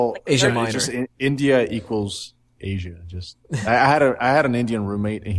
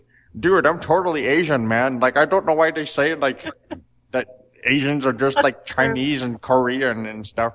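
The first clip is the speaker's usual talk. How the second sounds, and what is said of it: Poor imitation of another person's voice. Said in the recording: “a terrible impression.”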